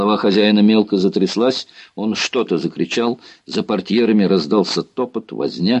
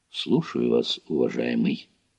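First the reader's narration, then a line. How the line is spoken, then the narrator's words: Quiet. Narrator (Russian): тихо проговорил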